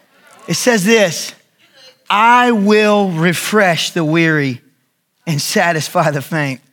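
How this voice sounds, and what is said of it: Yelling, loud preaching voice. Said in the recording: “I'm sorry if I'm yelling.”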